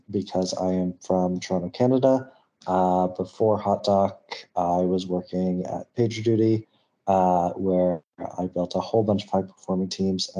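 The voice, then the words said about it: North American accent. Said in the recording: “I definitely have a North American accent”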